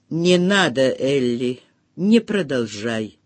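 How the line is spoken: Lifeless voice. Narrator (Russian): сказал Бен безжизненным голосом

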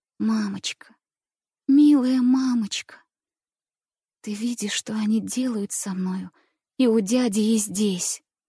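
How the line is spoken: Anguished whisper, then weeping. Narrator (Russian): Прошептала я с тоской, сжимая руки, и залилась слезами

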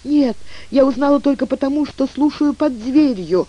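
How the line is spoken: Sad, plaintive girl. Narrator (Russian): ответила девушка с жалобно грустной улыбкой

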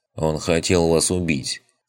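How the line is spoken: Calm reply. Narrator (Russian): спокойно ответил Амет

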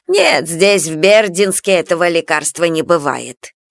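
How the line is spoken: Creaky complaining old woman. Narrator (Russian): проскрипела, жалуясь кому-то, старушка

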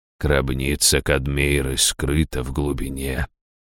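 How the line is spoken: Quiet repetition. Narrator (Russian): тихо повторил Раштау

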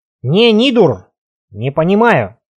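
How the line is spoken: Snorting. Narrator (Russian): Трюгви хмыкнул

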